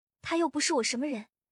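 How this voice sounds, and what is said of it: Whispered, complaining tone. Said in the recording (Chinese): “小声抱怨”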